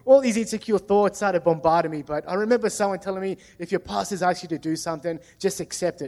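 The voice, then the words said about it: Strong ethnic Australian accent. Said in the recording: “I've got a pretty ethnic Aussie accent”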